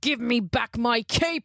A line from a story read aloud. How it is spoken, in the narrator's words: he roared